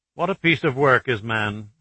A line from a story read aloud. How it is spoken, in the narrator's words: Archer quoted with a snort